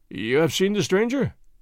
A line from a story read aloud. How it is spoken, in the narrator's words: asked Chauvelin eagerly